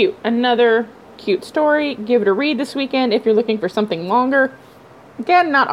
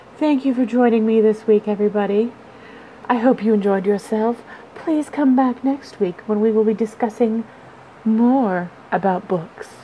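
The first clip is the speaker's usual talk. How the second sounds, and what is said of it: Public-radio announcer voice. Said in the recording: “Maybe I should take on like an NPR voice.”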